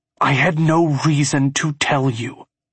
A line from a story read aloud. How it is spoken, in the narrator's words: growl in a near whisper